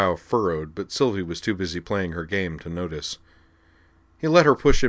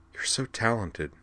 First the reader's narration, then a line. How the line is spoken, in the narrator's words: she murmured